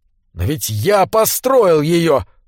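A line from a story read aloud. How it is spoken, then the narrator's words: Agitated exclamation. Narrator (Russian): воскликнул Буркхарт, позабыв о своем пальце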